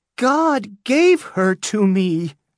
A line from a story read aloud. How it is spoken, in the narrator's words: repeated Hester, her voice high and afraid